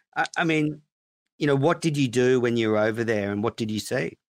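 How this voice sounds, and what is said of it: Serious, grave tone of voice. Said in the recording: “have you noticed my tone has changed from you know, Minifan hack to serious voice?”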